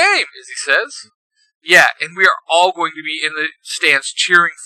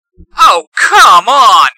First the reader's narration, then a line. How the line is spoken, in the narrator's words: Mikhail shouts